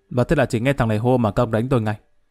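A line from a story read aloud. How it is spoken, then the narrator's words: Raised voice. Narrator (Vietnamese): Lâm cao giọng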